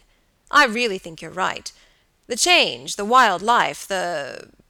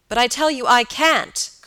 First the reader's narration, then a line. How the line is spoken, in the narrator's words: cried George